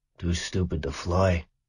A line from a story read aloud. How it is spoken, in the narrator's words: murmured his father with a little smile